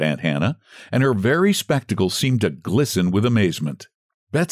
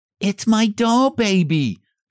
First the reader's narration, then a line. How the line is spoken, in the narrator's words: she cried